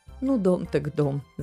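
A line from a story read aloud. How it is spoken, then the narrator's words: Laughing grandmother. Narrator (Russian): засмеялась бабушка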